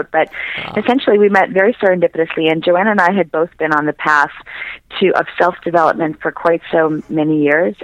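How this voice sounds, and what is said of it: Hoarse, strained voice. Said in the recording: “I actually lost my voice. ... this is the end of the road for my throat”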